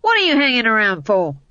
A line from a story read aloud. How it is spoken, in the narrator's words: yelled